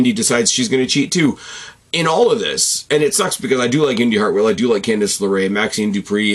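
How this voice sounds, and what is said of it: Usual voice. Nothing is said of it.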